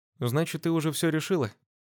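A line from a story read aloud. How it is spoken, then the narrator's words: Breathed out. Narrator (Russian): выдохнула Полина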